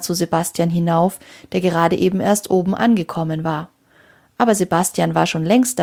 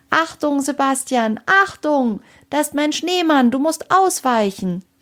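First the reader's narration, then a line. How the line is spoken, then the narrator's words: Shouting as loud as possible. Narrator (German): rief sie so laut sie konnte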